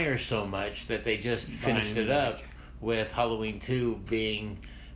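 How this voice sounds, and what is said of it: Usual voice. Nothing is said of it.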